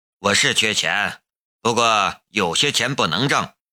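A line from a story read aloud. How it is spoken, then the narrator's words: Flat, indifferent. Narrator (Chinese): 夏雷淡淡的道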